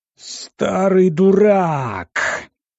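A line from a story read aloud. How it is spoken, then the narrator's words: Roaring admiral. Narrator (Russian): взревел адмирал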